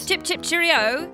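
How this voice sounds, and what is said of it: Put-on British voice. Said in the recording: “can you do a British voice?”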